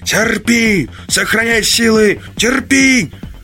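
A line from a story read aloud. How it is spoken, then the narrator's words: Yelling, voice breaking. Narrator (Russian): Заорал срывающимся голосом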